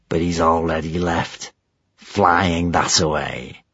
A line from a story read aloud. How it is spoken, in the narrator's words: hissed Gumboil